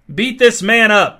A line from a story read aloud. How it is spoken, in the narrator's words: shouted Billy from close behind Duffy